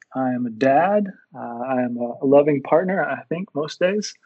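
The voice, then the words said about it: Texan American accent. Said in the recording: “I'm originally from Texas. If you haven't told yet from my accent”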